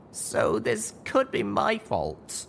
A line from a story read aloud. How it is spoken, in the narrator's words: I moaned